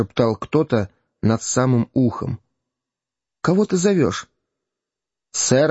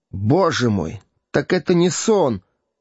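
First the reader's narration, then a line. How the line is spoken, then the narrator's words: Sorrowful exclamation. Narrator (Russian): воскликнул горестно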